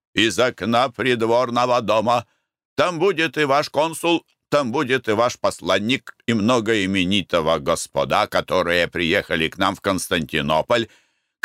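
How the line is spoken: Shouting from corridor. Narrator (Russian): кричал Нюрнберг из коридора

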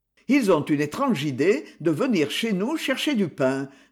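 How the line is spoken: Sneering. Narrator (French): ricana Campal

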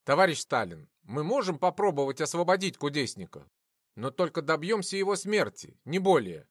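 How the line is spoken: Plain. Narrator (Russian): ответил Судоплатов

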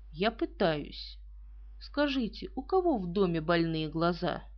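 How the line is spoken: Dry reply. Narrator (Russian): Эркюль Пуаро сухо ответил

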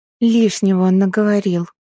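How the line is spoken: Grumble. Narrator (Russian): пробурчала

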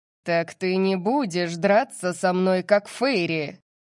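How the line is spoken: Growling. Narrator (Russian): Зарычал Сет

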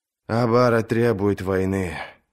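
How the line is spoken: Sighing. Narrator (Russian): вздохнул принц

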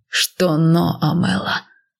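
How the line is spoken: Rough growl. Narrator (Russian): прорычал он грубо

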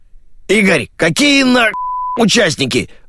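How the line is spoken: Wailing radio. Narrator (Russian): взвыла рация

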